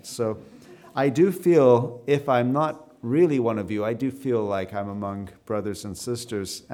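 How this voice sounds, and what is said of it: Canadian English accent. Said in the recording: “I have a Canadian accent”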